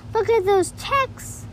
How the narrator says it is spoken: exclaimed Mason

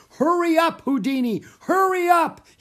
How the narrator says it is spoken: he cried

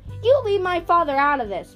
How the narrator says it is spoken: Meg shouted

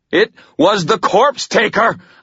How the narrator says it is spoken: I shouted

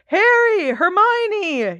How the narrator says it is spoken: yelled Ron, looking quite beside himself

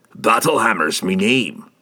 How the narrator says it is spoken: he growled

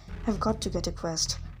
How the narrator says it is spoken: Annabeth muttered to herself

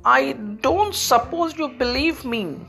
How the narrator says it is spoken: said sadly

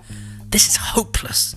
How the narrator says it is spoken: she hissed at George

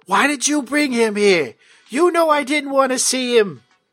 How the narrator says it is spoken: She yells at you

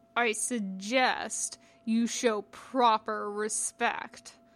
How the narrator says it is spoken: Jabath growled

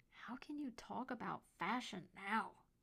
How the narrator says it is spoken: Colton hissed

